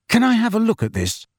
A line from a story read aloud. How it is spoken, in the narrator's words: Harry asked Luna eagerly